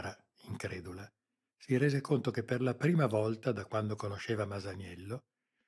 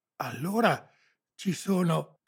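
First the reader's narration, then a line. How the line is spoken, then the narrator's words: Boy panting. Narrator (Italian): ansimò il ragazzo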